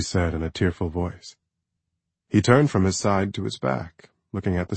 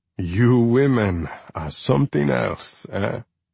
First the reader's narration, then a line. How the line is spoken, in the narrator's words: He said, chuckling